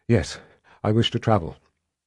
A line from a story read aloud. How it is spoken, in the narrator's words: Nicky said breathlessly